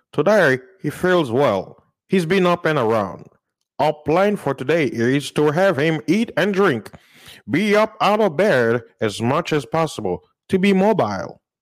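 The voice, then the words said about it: Put-on accent reading a statement. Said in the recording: “Let me do the accent good.”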